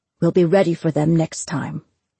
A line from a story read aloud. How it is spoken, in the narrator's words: Hal said